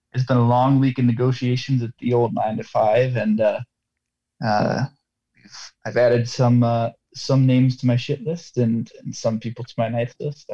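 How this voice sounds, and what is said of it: Tired-sounding voice. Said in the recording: “Tired. Oh, I think you can hear that in my voice. ... Yeah, we can.”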